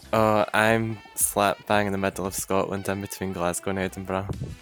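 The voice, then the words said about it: Scottish accent. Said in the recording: “I love the accent ... it really came out as he was talking about where he's from ... if there are any Scottish listeners, I know my accent's probably not the best representation”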